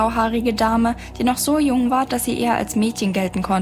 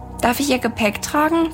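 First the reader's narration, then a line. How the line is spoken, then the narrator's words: Plain. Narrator (German): fragte Milo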